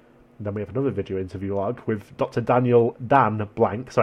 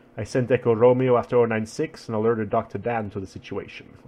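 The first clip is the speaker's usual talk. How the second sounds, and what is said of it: Drifting put-on accent. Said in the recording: “What the hell is this accent turned into?”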